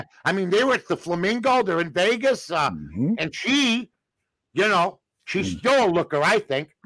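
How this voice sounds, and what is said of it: Voice resembling a famous actor's. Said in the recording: “you sound a little like my cousin Vinny, the lawyer, my cousin Vinny, Joe Pesci”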